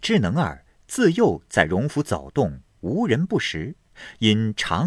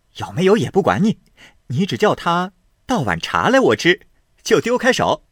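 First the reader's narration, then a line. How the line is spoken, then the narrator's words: Laughing. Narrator (Chinese): 宝玉笑道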